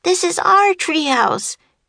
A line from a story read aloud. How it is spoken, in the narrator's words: shouted Annie